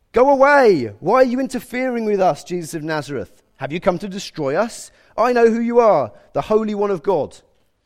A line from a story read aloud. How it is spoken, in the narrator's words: a man possessed by a demon, an evil spirit, began shouting at Jesus